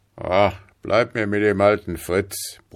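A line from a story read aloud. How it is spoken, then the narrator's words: Private grumbling. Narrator (German): brummte der Gefreite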